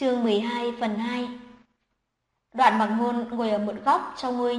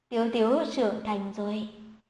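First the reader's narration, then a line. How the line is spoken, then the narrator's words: Soft laugh, speaking. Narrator (Vietnamese): Tống Hiếu Nhiên cười khẽ một tiếng nói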